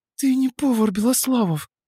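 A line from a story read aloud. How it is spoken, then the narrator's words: Breathy exhale. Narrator (Russian): выдохнула она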